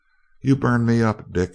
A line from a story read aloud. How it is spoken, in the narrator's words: she retorted, her entrancing low chuckle bubbling through her words